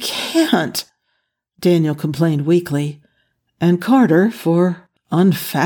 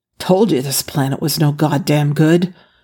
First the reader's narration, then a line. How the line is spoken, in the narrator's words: Jack grumbled